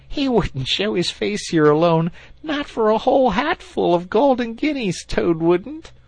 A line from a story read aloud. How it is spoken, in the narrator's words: said the rat, laughing heartily